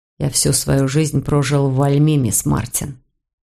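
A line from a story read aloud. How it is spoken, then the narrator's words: Calm. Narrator (Russian): он спокойно сказал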